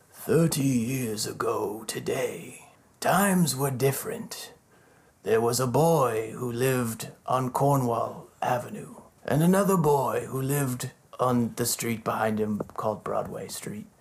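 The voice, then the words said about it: Movie-trailer narrator impression. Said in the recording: “my Anthony Hopkins voice ... Sounds like the Transformer trailer.”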